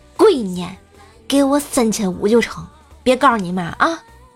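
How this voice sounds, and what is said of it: Very quiet, hushed voice. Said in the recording (Chinese): “倍儿小声声音跟我说”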